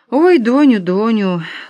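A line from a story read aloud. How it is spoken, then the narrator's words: Tender, vulnerable chuckle. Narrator (Russian): ласково, беззащитно усмехнулась мама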